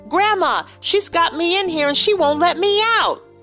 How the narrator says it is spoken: Francis yelled

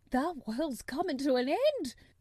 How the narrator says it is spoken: gasped Martha

